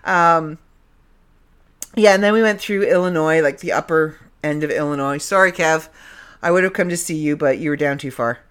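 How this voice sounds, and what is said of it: Canadian accent. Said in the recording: “I'm saying it the Canadian way... you're going to get my Canadian accent back”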